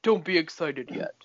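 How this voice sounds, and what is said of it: Imitates another person's voice. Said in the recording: “in that exact voice ... you did such a good impression of me”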